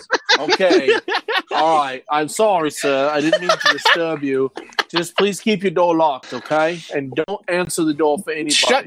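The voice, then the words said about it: Fake British accent. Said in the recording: “Why are you using a fake British accent?”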